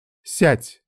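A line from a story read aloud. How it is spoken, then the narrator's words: Commanding tone. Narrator (Russian): повелительным тоном произнесла Мицука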